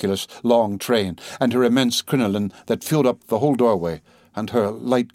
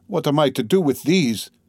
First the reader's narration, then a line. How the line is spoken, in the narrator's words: interrupted sharply and irritably